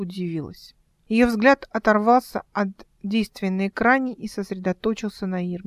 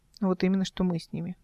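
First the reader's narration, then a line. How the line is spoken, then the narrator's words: Sighing. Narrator (Russian): вздохнула Эл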